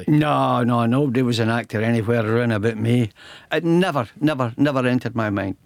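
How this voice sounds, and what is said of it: Scottish accent. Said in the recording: “you've still got the accent”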